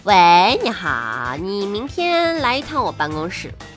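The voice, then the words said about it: Put-on regional accent. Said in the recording (Chinese): “我领导不是这口音呐”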